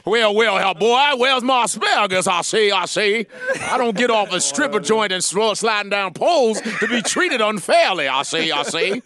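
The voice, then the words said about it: Foghorn Leghorn impression. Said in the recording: “Hey, foghorn. ... Foghorn.”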